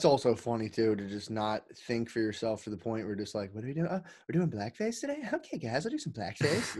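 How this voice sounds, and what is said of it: Usual voice. Nothing is said of it.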